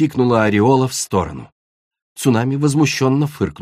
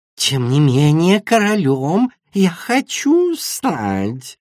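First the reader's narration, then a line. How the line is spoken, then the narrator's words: Insinuating hiss. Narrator (Russian): вкрадчиво прошипел Мальстрём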